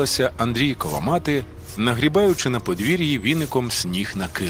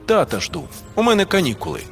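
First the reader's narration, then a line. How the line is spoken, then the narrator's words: Grumble. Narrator (Ukrainian): буркнув він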